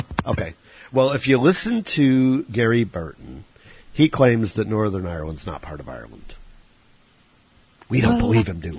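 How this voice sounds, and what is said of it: Exaggerated, poor Irish accent. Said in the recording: “my horrible Irish accent and stereotypical Irish talk”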